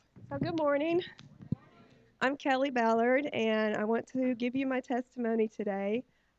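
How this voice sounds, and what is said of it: Voice with a cold. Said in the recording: “I've got a cold right now, so I might start coughing in the middle of this.”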